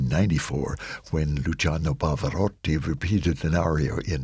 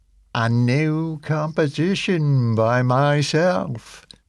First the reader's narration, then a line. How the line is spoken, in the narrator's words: he said, in a sarcastically theatrical voice, suggesting that he had grown weary of the ritual